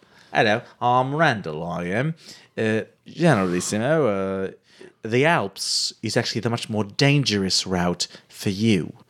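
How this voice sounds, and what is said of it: Bad put-on French accent. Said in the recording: “You have become French in your years here. ... adopt the culture and the shitty accent”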